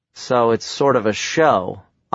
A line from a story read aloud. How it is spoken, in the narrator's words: I mumbled